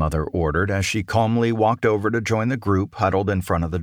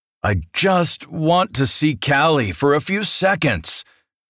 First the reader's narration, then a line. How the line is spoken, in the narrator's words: complained loudly, cutting through the rest of the banter